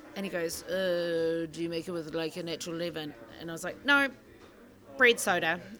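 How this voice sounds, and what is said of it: Irish accent. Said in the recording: “I'm from Ireland, basically, with this accent.”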